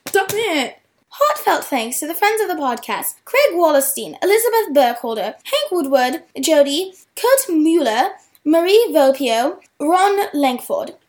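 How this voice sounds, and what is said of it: Fake British accent. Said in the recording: “pretend to be British ... your fake accent”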